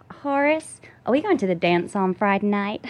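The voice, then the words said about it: Put-on Southern Texan-style accent. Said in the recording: “how's your Southern accent? ... That's kind of Texan. ... You just nailed Reese Witherspoon in Walk the Line. ... when you do the accent, you get dimples. Like, it's like it's sort of the Southern. ... you have to talk from the front of your mouth”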